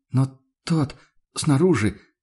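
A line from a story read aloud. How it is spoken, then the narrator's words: Hesitant, uncertain. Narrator (Russian): начала Мария Дишер неуверенно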